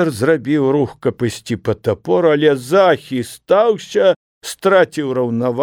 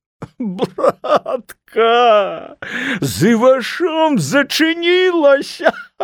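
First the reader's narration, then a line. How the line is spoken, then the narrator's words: Wailing. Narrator (Belarusian): Залямантаваў пісар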